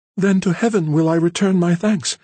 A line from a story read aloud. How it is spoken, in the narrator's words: exclaimed the younger sister, with enthusiastic gratitude